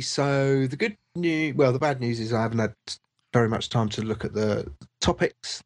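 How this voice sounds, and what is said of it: Stuffy, congested voice. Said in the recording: “I've got a cold”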